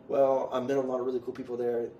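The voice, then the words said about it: Strong foreign accent. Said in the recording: “I have a really bad accent. I still had that big accent ... They heard my accent”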